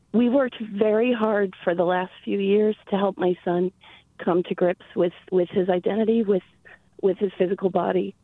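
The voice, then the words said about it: Shaky, emotional voice. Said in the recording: “you can hear the shaking in my voice.”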